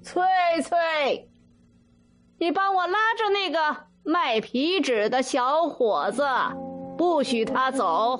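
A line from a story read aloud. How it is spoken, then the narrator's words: Shouting. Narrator (Chinese): 老船夫喊小山头的孙女儿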